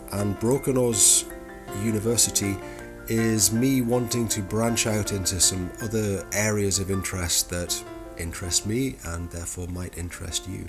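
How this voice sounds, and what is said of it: Geordie northern English accent. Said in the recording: “the Geordie accent, ... I am the northern one”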